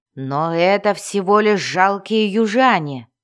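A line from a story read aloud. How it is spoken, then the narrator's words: Growled. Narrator (Russian): прорычал Хивстаак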